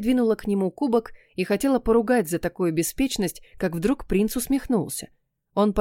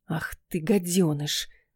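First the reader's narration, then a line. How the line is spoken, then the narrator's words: Hissed through teeth, dead silence. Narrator (Russian): процедила я в гробовой тишине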